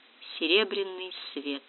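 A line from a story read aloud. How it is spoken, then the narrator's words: Quiet speech. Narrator (Russian): тихонько проговорил Габриэль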